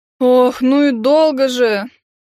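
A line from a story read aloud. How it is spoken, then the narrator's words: Boy exhaling. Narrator (Russian): выдохнул мальчишка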